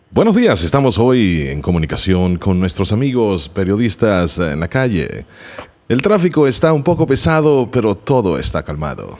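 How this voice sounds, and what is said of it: Radio announcer voice in Spanish. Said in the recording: “that amazing radio voice that you have ... Spanish and a radio voice”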